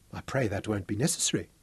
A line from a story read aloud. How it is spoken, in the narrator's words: she whispered